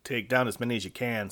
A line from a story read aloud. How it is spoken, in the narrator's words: said Viekko